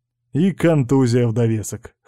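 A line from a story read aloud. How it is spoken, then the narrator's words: Wry grunt. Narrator (Russian): хмыкнул Кузьмин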